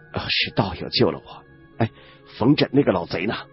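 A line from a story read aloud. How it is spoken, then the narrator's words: Weak but wary voice. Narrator (Chinese): 青年虽说声音虚弱无力，但仍然充满了警惕之意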